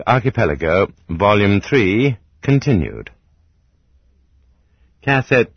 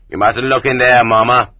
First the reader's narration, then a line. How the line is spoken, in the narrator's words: the guard told her, but not roughly